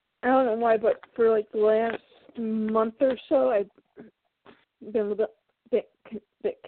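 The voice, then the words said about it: Stuffy, congested voice. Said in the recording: “I'm stuffy and my voice sounds weird ... I've got congested”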